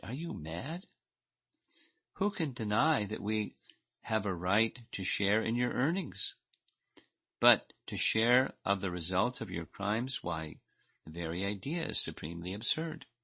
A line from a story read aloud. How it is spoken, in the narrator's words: they laughed in his face and cried